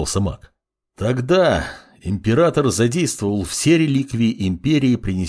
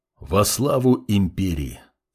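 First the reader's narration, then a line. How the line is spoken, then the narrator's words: Quiet reply. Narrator (Russian): тихо ответил паладин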